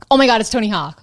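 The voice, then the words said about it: Put-on American accent. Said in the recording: “I just wanted to say that in an American accent”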